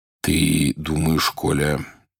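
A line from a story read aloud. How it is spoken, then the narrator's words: Quiet. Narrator (Russian): он тихо сказал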